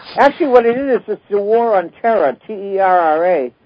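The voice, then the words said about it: New England accent. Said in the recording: “That's the New England accent, right?”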